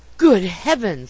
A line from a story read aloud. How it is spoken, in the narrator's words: he gasped, while his face turned as pale as ashes